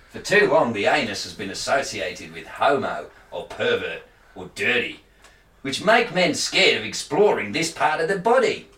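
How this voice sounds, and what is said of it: Put-on Australian accent. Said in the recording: “read what he says in the accent then ... I've lost the accent”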